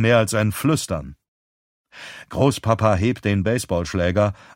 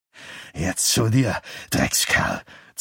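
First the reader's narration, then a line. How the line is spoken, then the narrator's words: Grandfather hissing. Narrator (German): zischt Großpapa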